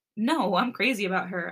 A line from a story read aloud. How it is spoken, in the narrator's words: I chuckled